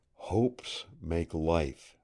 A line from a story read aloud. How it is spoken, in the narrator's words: softly whispered Kent, as if to himself